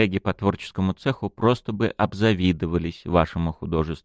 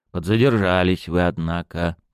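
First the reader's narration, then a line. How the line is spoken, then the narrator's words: Grumbling mutter. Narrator (Russian): буркнул Глеб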